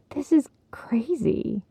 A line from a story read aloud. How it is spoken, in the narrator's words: muttered